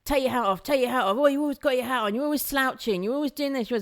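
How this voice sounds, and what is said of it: Impression of a nagging friend. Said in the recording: “that was the impression of you”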